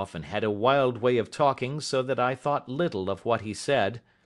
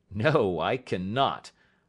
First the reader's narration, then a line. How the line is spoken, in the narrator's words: I answered sharply